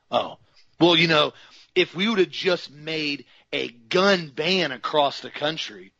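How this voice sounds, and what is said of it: Sarcastic delivery. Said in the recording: “I'm obviously being sarcastic here, and I'm making a joke of it”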